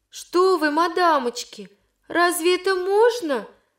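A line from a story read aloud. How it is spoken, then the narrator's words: Timid voices of several schoolgirls. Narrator (Russian): Робко прозвучали голоса 3-4 учениц, считавшихся самыми прилежными и благонравными из всего класса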